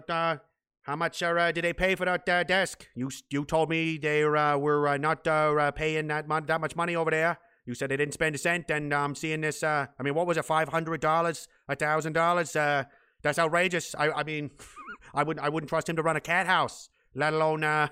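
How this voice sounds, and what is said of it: Angry old 1960s dad voice. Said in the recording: “that's JFK angry, like old 1960s angry dad voice”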